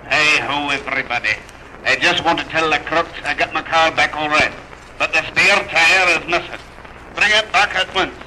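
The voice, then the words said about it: Speaks in a put-on dialect. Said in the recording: “you can tell from my dialect”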